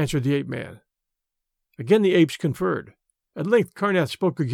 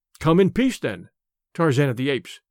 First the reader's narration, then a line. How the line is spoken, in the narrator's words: he said